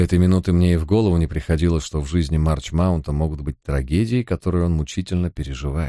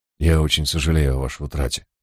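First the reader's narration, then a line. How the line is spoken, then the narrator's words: Sad, fitting tone. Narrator (Russian): произнес я приличествующим случаю печальным тоном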